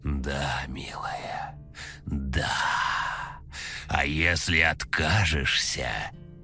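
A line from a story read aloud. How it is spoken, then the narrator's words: Hissed. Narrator (Russian): прошипела Пугало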